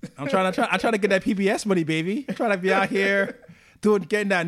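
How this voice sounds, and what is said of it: Usual voice. Nothing is said of it.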